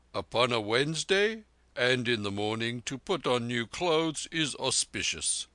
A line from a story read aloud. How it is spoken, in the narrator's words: said Mahbub solemnly